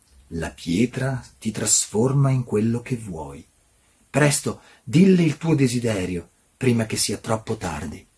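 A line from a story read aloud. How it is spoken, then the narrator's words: Snake hissing in ear. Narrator (Italian): il serpente gli sibilò nell'orecchio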